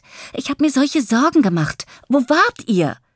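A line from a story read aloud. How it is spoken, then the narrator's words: Excited call. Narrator (German): ruft aufgeregt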